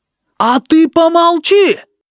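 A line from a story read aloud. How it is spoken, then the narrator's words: Shout. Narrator (Russian): крикнул Сараниский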